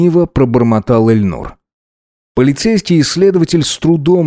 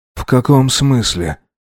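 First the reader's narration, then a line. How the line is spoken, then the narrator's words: Weakened voice, asking. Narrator (Russian): ослабевшим голосом уточнил Эльнур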